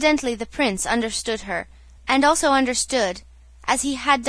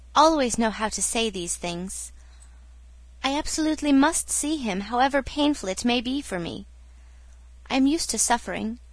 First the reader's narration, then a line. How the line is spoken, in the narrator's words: she smiled tenderly